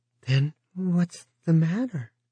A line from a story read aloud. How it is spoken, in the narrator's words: Edie Dorn asked timidly